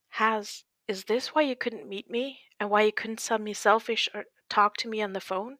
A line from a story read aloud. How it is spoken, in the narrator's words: Louis asked gently, even though his knees were weak